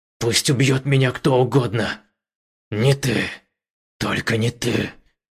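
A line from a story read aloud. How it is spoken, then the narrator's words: Growl through clenched teeth. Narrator (Russian): Муян стиснул зубы и прорычал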